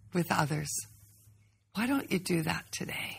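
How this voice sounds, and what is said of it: Sing-song kindergarten teacher voice. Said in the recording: “This is like her kindergarten teacher voice. It's like creeping me out.”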